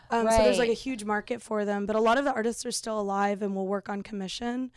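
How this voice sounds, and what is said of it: Hoarse voice. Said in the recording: “I've been screaming at middle schoolers all week. So I'm sorry, my voice is really hoarse.”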